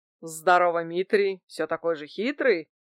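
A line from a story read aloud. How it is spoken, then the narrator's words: Laughing greeting. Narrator (Russian): хохотнул Стан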